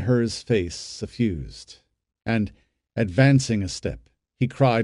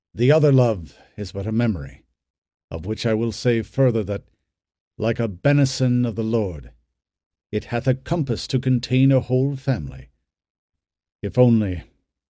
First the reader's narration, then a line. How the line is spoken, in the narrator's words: His voice lowered and trembled